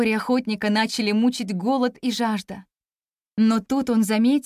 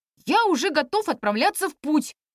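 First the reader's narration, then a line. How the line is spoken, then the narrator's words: Restless exclamation. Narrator (Russian): воскликнул непоседа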